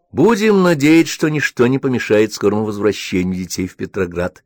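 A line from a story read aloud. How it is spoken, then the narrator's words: Plain. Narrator (Russian): сказала Ханна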